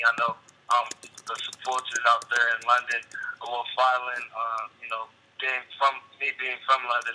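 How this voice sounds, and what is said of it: Slight British accent. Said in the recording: “a little of the British accent ... my accent slowly started to creep out ... very natural for me to, like, be talking like this”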